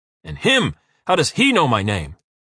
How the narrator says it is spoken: Uwe roars, the veins on his forehead bulging

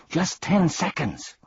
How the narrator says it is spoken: cried Milo excitedly

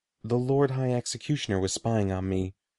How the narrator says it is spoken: Morgrid explained, lowering his voice to a whisper

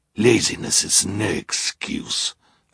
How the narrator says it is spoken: Olaf growled

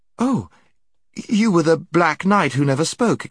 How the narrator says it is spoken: exclaimed Jill

